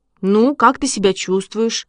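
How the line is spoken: Plain. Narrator (Russian): спросил Ваня

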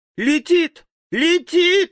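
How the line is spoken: Sudden shriek. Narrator (Russian): вдруг взвизгнула Элли

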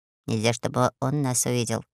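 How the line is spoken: Quiet. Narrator (Russian): гном тихо сказал

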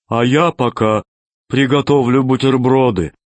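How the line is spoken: Guilty voice. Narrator (Russian): сказал виноватым голосом зеленый

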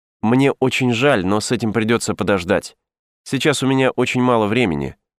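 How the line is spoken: Plain. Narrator (Russian): ответил

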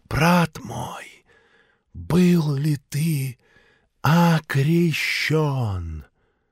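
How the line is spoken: Mysterious whisper. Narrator (Russian): таинственно зашептала

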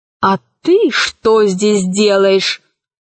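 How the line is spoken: Menacing question. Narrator (Russian): грозно спросила Кора

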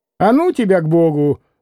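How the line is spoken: Angry snapping. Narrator (Russian): огрызнулась уже с сердцем Агафья

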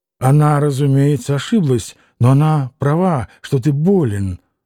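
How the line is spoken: Plain. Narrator (Russian): сказал Алёша

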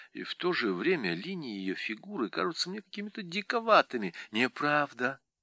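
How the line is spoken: Whisper. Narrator (Russian): шепнула Леа

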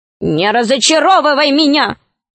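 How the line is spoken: Angry. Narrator (Russian): сказал гном сердито

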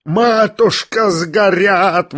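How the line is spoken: Yelling. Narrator (Russian): вопил Лебедев

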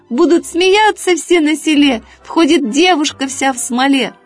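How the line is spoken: Rooster shouting. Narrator (Russian): петушок закричал

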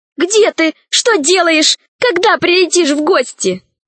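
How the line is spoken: Joyful roaring laughter. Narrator (Russian): Большой друг Селезневых, космический археолог Громозека, расхохотался от радости

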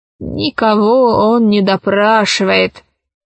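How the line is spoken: Lazy old woman. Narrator (Russian): лениво сказала старуха

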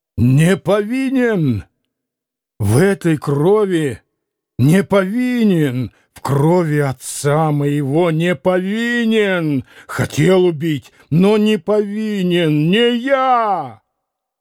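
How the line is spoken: Shouted. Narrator (Russian): прокричать

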